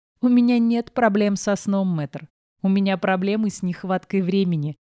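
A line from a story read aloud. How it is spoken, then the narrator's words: Laughing. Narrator (Russian): рассмеялась я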